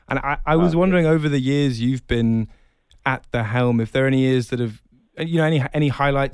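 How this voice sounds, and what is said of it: Non-local accent. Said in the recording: “You can probably tell from my accent I'm not Tucson or Southern Arizona born and raised.”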